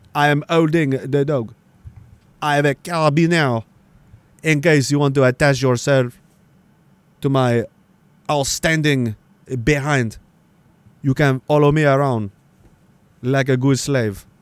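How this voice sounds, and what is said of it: Arrogant put-on French accent. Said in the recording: “I like him better if he's got an arrogant French accent.”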